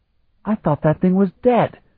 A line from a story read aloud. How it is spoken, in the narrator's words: Kalton exclaimed